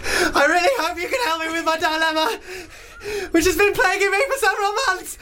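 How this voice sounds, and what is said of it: Frightened, panicked reading voice. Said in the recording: “as if she's being chased through the woods ... So scared.”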